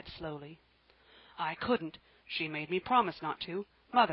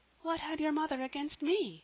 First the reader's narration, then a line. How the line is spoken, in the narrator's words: cried Janet